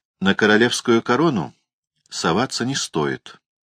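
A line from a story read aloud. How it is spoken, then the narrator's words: Plain. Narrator (Russian): сказал продавец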